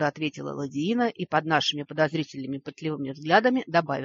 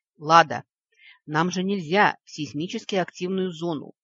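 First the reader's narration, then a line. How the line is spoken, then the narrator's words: Reproachful hiss. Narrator (Russian): укоризненно прошипел Вик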